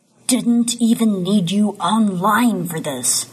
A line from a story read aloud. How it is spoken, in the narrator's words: he growls